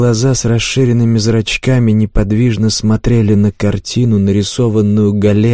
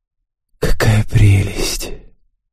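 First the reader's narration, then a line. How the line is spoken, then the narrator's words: Woman whispering. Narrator (Russian): Спутница мужчины прошептала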